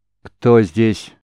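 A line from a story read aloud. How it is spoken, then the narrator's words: Stern, fearless. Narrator (Russian): строго, без малейшего страха в голосе спросил маг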